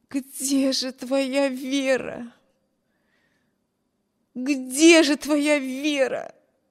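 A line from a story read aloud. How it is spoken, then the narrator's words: Moaning, repeating to herself. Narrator (Russian): Стонала бедная Эми, снова и снова повторяя про себя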